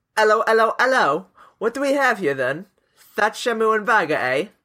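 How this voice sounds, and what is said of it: Put-on Cockney English accent. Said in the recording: “do it in a Cockney accent ... I'll just do some accent. It might be even worse.”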